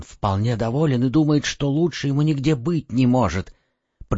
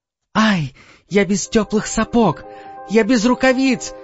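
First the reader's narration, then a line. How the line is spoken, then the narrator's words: Shouting, freezing. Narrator (Russian): закричала Герда, очутившись на морозе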